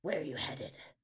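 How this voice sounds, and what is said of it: Gruff character voice. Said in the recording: “the biker unicorn asks in a gruff voice.”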